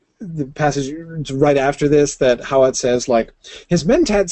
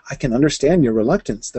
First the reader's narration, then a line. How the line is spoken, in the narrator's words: said